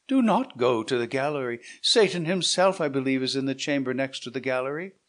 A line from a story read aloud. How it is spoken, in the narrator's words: cried Yaquez